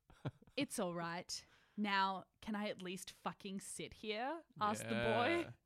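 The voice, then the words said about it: Low, sexy character voice. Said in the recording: “I'll try and do a very low, sexy voice. Lower than and sexier than this one. ... I can't go lower than my natural register. ... But it was so sexy. ... I'll just use this classic low and sexy voice”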